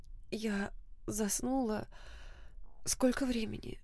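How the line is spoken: Sleepy voice. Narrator (Russian): сонным голосом спросила она

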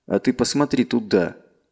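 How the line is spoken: Slightly irritated. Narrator (Russian): немного раздраженно ответил Тирт

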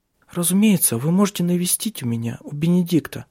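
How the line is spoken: Unsteady voice. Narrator (Russian): сказала она нетвердым голосом

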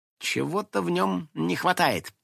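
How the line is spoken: Thoughtful. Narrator (Russian): задумчиво кудряшка

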